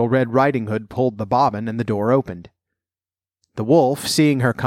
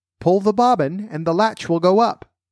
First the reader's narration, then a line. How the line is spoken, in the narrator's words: The wolf cried out to her, softening his voice as much as he could